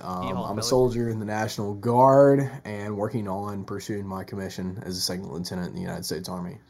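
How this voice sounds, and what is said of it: Southern American accent. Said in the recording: “if you can't tell by the southern accent.”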